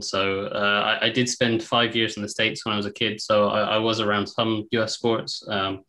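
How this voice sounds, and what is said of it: English accent. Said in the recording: “from the sound of my accent, you probably picked up, I'm English”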